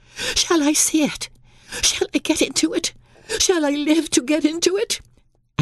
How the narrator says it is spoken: he cried out with a half sob

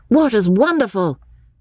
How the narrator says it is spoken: cried Freddy

